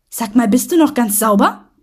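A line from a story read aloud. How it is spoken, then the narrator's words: Snapping back gruffly. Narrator (German): schnauzte der Mann zurück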